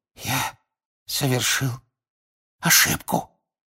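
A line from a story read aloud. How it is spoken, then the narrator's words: Whisper. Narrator (Russian): прошептал мистер Крауч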